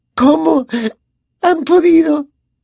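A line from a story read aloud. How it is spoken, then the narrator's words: Gasping, choking question. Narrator (Spanish): preguntó jadeando, como si se ahogase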